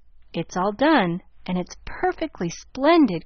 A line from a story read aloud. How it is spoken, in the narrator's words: cried Nan, with the air of triumph